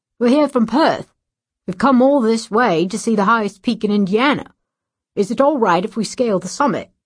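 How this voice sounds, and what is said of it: Put-on Australian accent. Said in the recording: “With an Australian accent,”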